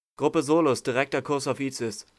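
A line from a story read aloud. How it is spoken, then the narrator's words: Called out. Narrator (German): rief Kandaros Ordo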